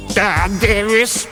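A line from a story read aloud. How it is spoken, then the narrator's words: Creaky principal's voice. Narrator (Russian): проскрипел голос директора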